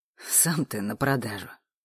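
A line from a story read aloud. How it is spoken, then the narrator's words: Snorting. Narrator (Russian): хмыкнул Олег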